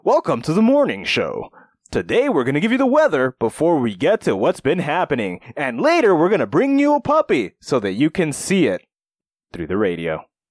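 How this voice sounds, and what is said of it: Upbeat morning radio host voice. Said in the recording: “All the radio voices. From this fantastic morning show voice”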